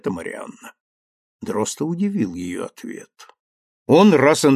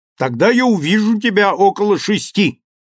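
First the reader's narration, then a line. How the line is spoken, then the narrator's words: Shouted into phone. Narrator (Russian): крикнул он в телефонную трубку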